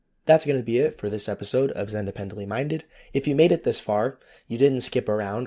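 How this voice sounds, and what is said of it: Raspy voice. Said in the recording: “thank you for putting up with my raspy voice ... next week ... will be better as far as voice quality”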